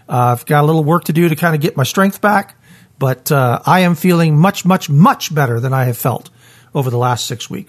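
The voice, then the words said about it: Voice not fully recovered from illness. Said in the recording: “As you can hear, my voice isn't quite all the way back, but it's most of the way back.”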